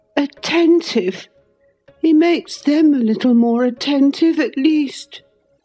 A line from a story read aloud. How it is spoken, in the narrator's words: he cried